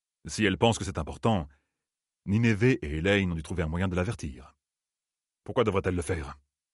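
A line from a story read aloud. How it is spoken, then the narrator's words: Plain question. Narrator (French): demanda Julin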